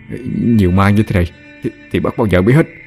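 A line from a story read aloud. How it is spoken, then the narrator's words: Terrified stammering. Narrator (Vietnamese): Lâm Trọc bây giờ sợ đến liếu cả lưỡi, lắp bắp nói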